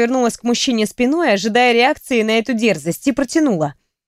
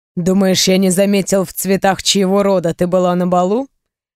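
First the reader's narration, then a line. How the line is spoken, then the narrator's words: Man's scoffing grunt. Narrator (Russian): хмыкнул мужчина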